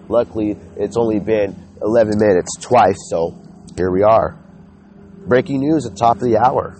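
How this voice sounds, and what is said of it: Congested, stuffy-nosed voice. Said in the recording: “I sound so congested ... I've been sick since last Monday”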